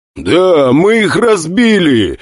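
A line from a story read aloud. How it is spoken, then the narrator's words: Joyful shout. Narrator (Russian): радостно закричал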